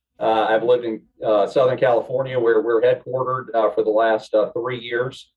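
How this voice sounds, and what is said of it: Southern US accent. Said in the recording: “You can tell by my accent, I'm a native Southerner.”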